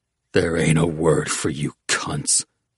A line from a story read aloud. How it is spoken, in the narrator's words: Oates growled